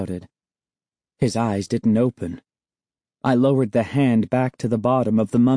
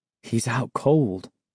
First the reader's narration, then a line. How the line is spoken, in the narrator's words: I murmured